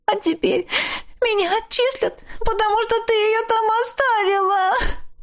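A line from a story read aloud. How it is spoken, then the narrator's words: Sobbing, bursting into tears. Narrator (Russian): Она всхлипнула и вдруг разрыдалась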